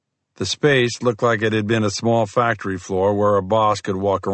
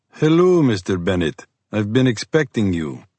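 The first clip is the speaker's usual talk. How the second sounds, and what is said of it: Slight Russian-Scandinavian accent. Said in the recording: “The speaker had a slight accent. It almost sounded Russian with a hint of Scandinavian.”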